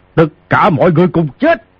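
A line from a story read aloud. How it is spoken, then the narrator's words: Thunderous roar. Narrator (Vietnamese): Ngao Bái gầm lên như sấm quát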